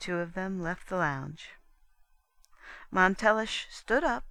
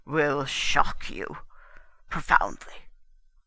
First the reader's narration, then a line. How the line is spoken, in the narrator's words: Montelish rumbled